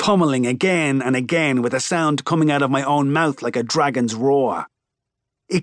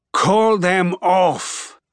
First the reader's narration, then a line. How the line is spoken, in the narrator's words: he pants